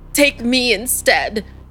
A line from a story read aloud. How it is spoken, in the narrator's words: he cried out, his voice cracking